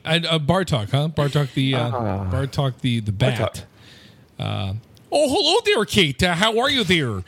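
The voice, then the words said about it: Cartoon character voice, slight Minnesota accent. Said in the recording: “my Bartok impersonation ... He does a Minnesota voice a little bit there.”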